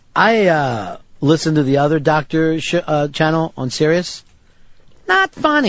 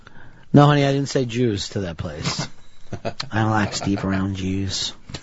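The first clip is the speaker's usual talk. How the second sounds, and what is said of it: Imitates another person's voice. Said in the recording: “his Tacey impression. ... That's him doing my wife, Tacey ... Spot on.”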